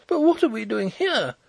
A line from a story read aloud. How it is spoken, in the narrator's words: exclaimed Hollyer, pale and horrified